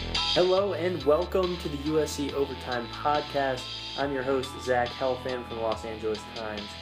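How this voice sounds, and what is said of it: Stiff, projected podcast-host voice. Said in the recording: “is this your podcast voice? ... I would drop the podcast voice. Just talk normal. ... I feel like you have to project like into the microphone ... you sound a little too stiff that way”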